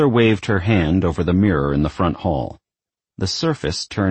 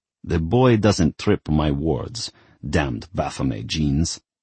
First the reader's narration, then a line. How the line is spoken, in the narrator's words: Grandfather grumbled